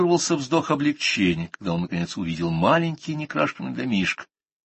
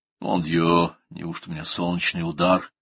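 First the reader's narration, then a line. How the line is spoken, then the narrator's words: Muttering doctor. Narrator (Russian): пробормотал доктор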